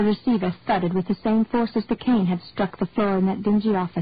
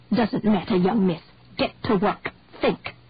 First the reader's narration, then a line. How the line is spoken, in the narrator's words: growled